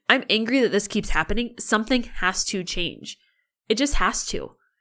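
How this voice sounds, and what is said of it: Angry, passionate voice. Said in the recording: “I get so passionate. I'm sure you can hear in my voice how I'll be honest, I'm angry.”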